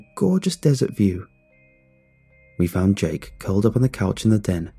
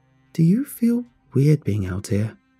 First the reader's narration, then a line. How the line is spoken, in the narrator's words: asked me